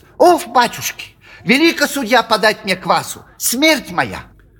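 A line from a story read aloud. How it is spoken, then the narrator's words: Angry shrill tenor. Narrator (Russian): сердито тараща на него глаза, заговорил визгливым тенором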